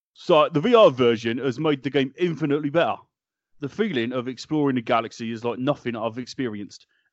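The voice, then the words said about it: Imitates another person's voice. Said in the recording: “in my best Paul Collett impression”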